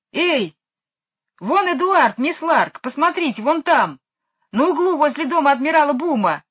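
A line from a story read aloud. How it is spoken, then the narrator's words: Shout. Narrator (Russian): закричал Майкл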